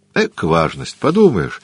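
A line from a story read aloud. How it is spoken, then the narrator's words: Laughing. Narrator (Russian): засмеялся Дориан Грей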